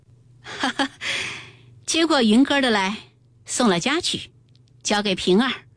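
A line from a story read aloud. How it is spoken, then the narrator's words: Smiling command. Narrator (Chinese): 凤姐儿便笑了笑，命凤儿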